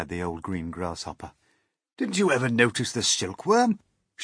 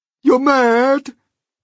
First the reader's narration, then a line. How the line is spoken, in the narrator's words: cried the earthworm